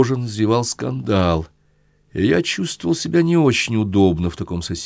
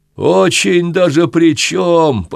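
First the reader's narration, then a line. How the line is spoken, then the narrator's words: Nearly shouted. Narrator (Russian): почти крикнул сосед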